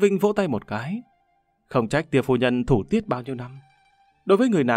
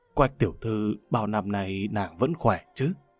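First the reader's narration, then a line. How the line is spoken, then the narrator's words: Gentle. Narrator (Vietnamese): nhẹ nhàng nói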